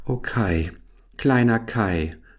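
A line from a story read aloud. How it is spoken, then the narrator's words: Sighed. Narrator (German): seufzte Gerda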